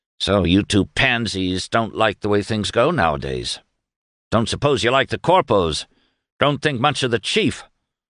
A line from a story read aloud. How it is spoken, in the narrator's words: he grumbled